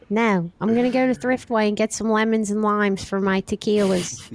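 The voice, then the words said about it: Delco Philadelphia-area accent. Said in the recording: “got a pretty good Delco accent.”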